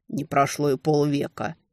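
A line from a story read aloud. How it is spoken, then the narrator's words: Grumbled. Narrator (Russian): проворчал Хентабесир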